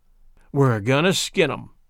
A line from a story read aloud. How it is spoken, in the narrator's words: said Eddie Curtis